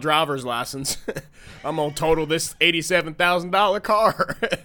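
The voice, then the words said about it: Fake Southern accent. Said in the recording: “faking a southern accent”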